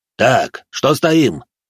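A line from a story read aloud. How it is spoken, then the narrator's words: Boss growling. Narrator (Russian): рыкнул на него начальник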